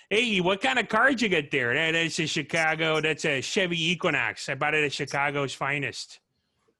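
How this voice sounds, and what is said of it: Put-on Chicago accent. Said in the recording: “I found a way to do the Chicago accent ... That word will get me like dialed into a Chicago accent.”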